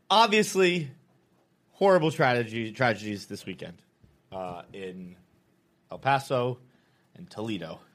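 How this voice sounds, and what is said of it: Serious, somber tone. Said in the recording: “I'm going to get serious voice for a moment.”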